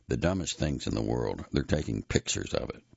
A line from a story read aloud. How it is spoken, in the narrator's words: he muttered to no one in particular